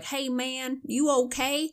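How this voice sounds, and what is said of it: Put-on Southern accent. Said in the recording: “Your impression of a Southern accent is adorable.”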